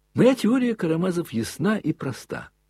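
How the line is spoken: Hurried, joyful. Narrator (Russian): опять радостно заспешил он тотчас же

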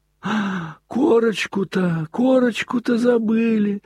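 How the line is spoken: Sudden terrified exclamation. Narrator (Russian): вдруг воскликнул он в страшном испуге

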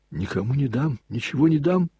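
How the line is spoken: Harsh exclamation. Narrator (Russian): жестокосердно воскликнул Снегирев

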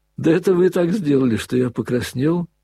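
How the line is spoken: Laughing. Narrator (Russian): засмеялся Алеша

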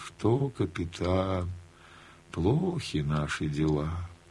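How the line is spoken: Sighing, cheerless. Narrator (Russian): вздохнет, скажет невесело

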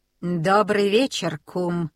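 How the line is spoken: Gloomy croak. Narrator (Russian): мрачно каркнул Фумле-Друмле

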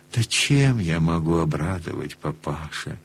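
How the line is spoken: Wry, sad, strained. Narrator (Russian): Чуть усмешливо, грустно, с трудом выговорил он

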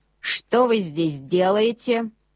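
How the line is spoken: Stern question. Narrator (Russian): строго спросил Мортон

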